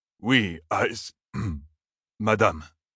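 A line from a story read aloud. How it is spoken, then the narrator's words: Choked, breathless voice. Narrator (French): fit l'officier d'une voix étranglée, comme s'il avait du mal à respirer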